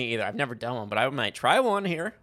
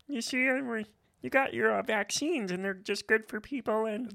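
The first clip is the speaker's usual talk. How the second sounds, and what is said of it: Bill Gates impression, Kermit-like. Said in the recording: “I was going to try to do an impression ... I can't do a Bill Gates ... it's Kermit the Frog ... It kind of sounds like Kermit the Frog”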